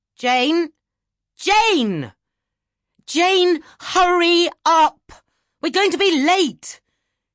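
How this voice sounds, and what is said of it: Shouting character voice. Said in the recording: “stop shouting”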